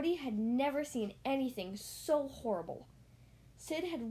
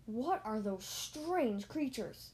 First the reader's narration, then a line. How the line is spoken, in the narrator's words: Buzz gasped